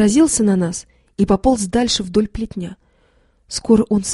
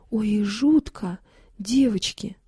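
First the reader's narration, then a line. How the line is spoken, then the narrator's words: Sighing. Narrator (Russian): вздохнула Фима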